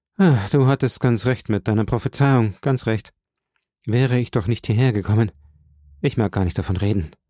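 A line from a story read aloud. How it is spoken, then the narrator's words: Sighing reply. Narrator (German): mit einem Seufzer erwiderte er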